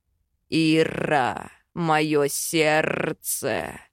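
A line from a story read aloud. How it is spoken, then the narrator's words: Draconic growl. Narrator (Russian): Драконьим голосом рычит Хакан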